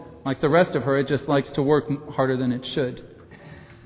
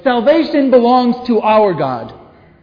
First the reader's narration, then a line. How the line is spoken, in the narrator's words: This huge multitude crying out in a loud voice